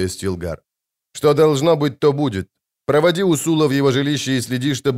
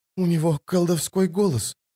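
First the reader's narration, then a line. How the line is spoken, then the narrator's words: Hoarse mutter. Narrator (Russian): сипло пробормотала она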